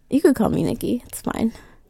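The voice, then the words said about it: Sexy, phone-sex-style voice. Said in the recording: “You have a sexy voice. ... That's the new phone sex voice”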